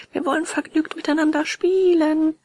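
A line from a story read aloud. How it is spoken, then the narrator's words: Group shouting. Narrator (German): schrien alle aus dem Wagen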